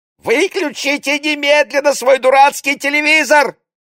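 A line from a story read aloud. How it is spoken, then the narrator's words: Lodger shrieking. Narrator (Russian): взвизгнул постоялец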